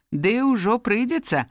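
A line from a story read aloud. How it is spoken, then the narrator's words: Plain. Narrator (Belarusian): адказаў Сергій Паўлавіч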